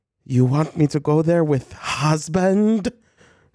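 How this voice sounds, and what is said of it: Vague Eastern European-style accent. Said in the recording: “I don't know what specific like accent or what made up country Meredith Marks is from ... It's giving a mix of like Heath Ledger as the Joker and like Meryl Streep and Sophie's Choice. Like there's like a little bit of Eastern European”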